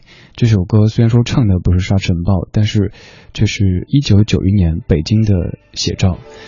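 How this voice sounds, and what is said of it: Usual voice. Nothing is said of it.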